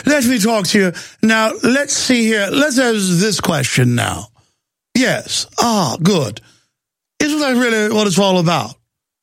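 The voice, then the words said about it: Affected fake Mid-Atlantic accent. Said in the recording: “A guy with a fake Atlantic accent up there with his feet kicked up going ... affected and fake”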